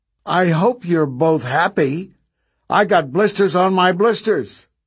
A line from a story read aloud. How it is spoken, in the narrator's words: From behind them, the girl called out